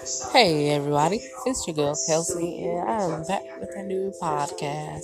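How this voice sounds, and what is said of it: Speaking with a country accent. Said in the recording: “I was sounding like I have a country accent”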